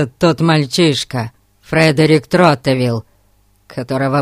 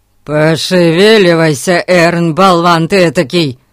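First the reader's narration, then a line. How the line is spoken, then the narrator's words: Roared. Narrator (Russian): взревел мистер Гун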